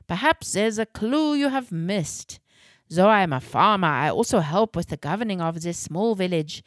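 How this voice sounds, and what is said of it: Thick German accent. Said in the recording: “in his thick German accent”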